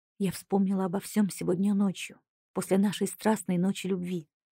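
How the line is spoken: Whisper. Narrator (Russian): прошептала

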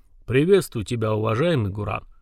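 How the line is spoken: Deep bass voice. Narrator (Russian): пробасила голограмма существа, похожего на земного снежного человека

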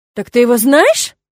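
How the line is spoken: Indignant puffing from above. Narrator (Russian): возмущенно запыхтел наверху Керт

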